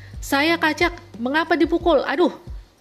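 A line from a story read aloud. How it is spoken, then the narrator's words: Shouting in pain. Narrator (Indonesian): Orang itu berteriak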